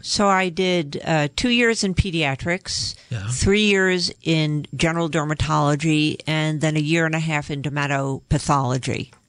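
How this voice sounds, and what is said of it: New York accent. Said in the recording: “I'm originally from New York. You can probably tell from my accent.”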